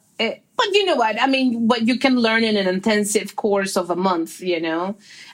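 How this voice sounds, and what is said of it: Non-native accented English. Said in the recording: “I don't think I ever going to lose this accent”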